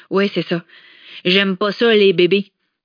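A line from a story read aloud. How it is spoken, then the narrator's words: Grumbled. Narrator (French): grogna Mathias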